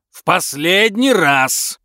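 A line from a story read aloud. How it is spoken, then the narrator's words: Yelling from a cave. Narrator (Russian): вопил мистер Блэк из пещеры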